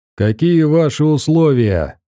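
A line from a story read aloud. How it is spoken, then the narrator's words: Leader shouting. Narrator (Russian): крикнул главарь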